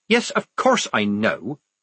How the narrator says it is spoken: said Polly irritably

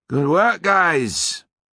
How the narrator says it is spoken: he called out

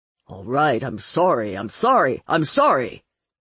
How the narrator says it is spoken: Marlowe snapped

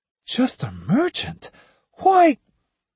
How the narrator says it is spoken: exclaimed the girl

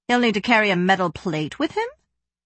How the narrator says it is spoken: Frava said dryly

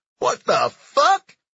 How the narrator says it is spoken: he cried out

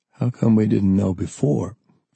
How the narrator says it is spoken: Forrest asked

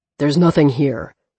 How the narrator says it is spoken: Sullivan growled

